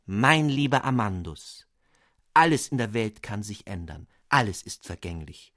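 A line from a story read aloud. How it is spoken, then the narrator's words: Plain. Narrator (German): sagte Herr Schulmeister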